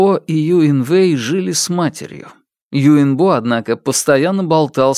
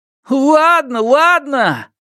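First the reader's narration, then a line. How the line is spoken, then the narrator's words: Disappointed sigh. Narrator (Russian): Юинвэй разочарованно вздохнул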